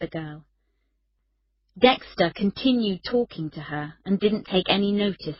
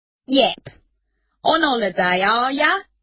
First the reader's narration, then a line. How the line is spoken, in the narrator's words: said Dexter in his pretend Cockney accent